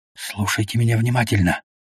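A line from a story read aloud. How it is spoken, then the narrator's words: Whisper. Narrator (Russian): шептал Мазай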